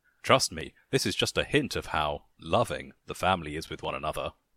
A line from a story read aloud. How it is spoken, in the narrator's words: he chuckled